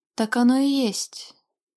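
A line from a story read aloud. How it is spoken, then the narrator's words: Sighing. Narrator (Russian): вздохнул дракон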